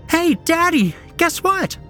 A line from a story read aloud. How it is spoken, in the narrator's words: squealed